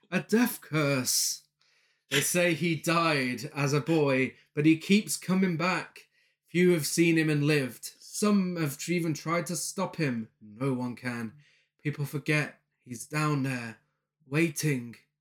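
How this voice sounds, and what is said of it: Terrible accent drifting into northern accent. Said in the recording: “a terrible accent that turned into a northern accent ... in the film, that was Walt Gorney in his final role, Crazy Ralph himself doing the voiceover”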